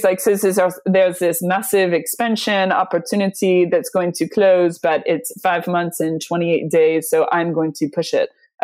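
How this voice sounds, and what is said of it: Bad put-on French accent. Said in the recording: “I do a terrible French accent.”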